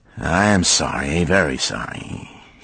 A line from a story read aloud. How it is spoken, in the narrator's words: he mumbled weakly